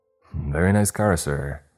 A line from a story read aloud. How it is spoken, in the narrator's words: he exclaimed